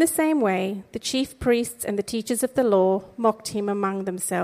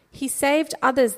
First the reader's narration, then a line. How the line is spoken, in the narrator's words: they said